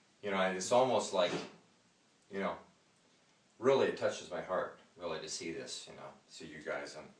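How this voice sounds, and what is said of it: Emotional, choked-up voice. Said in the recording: “Sorry, I'm getting emotional here. try to hold it back a little bit.”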